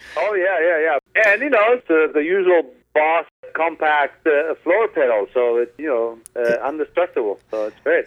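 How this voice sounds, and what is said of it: Latin accent. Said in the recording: “with your cool Latin accent”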